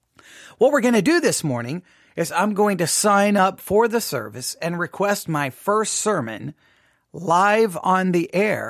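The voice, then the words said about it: Rough early-morning voice. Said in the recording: “it's early morning for my voice ... my voice is not ready to start talking”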